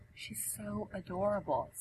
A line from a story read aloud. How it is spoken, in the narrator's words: Siggy whispers next to her